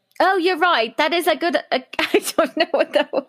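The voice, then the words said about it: Poor imitation British accent. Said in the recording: “My British accent's obviously terrible.”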